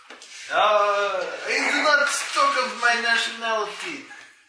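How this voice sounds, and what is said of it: Put-on Russian accent. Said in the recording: “You sound Russian.”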